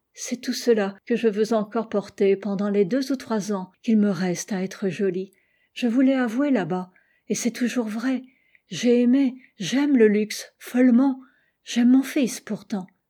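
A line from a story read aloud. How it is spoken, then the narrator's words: Sighing. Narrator (French): ajouta-t-elle dans un soupir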